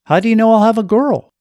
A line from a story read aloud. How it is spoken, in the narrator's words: Sheila chuckled